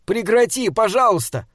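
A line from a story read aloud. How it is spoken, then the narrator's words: Shout. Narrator (Russian): крикнул он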